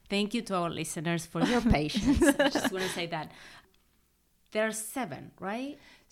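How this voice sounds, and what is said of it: Argentine-accented English. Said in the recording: “between your accent, my accent. ... I am from Argentina.”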